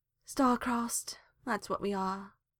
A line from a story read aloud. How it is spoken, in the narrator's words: sighed Hawk